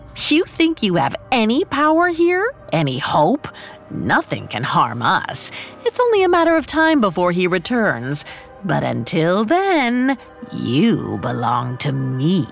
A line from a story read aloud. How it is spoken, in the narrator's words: She scoffed